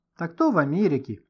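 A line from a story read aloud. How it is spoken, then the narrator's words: Cheerful reply. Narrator (Russian): весело отозвался Гошка, который первым оправился от смущения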